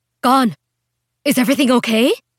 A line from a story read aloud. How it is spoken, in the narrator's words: Mai Nguyen asked, her voice frantic with concern